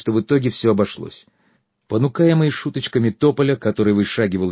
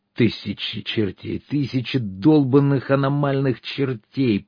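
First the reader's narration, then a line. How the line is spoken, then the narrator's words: Groaning. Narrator (Russian): простонал я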